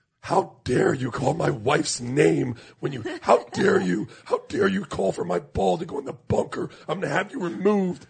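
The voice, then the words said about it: Snobby, indignant golfer voice. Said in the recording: “they are the most like snobby ... impersonation.”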